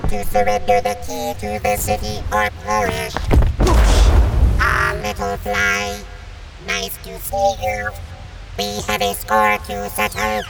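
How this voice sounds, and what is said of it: Squeaky little boy robot voice. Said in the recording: “What happened to your voice, Disastro? You sound like a little boy robot. ... The big scary monster sounds like a squeaky toy.”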